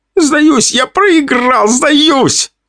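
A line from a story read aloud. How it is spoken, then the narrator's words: Wailing yell. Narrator (Russian): вопил тот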